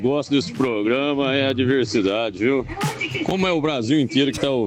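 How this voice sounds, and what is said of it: Usual voice. Nothing is said of it.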